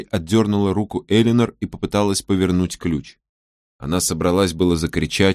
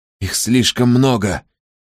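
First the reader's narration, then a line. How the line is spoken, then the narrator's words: Hiss. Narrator (Russian): шипела она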